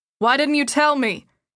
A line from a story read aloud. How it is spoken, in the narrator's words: shouted over the siren and the chatter of other students